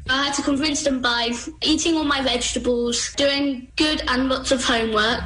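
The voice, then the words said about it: Young child's British accent. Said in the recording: “a kid with an accent, a little kid? I mean, I just kind of want a British kid”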